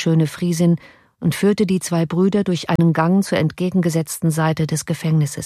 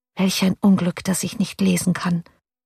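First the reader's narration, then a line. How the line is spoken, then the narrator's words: Quietly to herself. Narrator (German): sagte sie leise zu sich selbst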